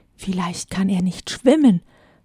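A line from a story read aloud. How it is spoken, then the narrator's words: Whispered. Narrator (German): flüsterte Lidi, die wie versteinert neben mir stand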